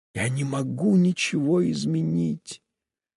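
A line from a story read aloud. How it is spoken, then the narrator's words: Whisper. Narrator (Russian): прошептала она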